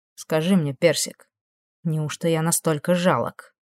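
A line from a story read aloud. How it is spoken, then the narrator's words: Quiet question. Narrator (Russian): Негромко спросил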